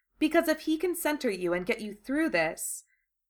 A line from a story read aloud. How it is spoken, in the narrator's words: she said quickly